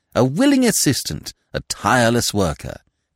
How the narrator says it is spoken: said Smith warmly

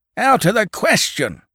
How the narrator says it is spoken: shouted the farmer

